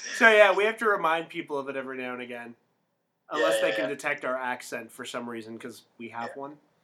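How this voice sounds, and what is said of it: Canadian accent. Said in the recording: “wow, you have such a Canadian accent ... I think Midwestern and Canadian are actually kind of close.”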